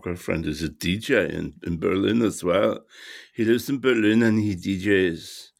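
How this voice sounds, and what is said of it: Put-on German accent, decent attempt. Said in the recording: “that is my German accent. I think it is not too bad. I'm not very good at accents. ... It's a decent attempt at a German accent”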